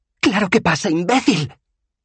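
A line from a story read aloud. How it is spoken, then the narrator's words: Snapped. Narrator (Spanish): le espetó ella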